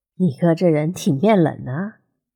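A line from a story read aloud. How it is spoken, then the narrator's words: Low voice, smiling question. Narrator (Chinese): 许少辉笑着低声问楚西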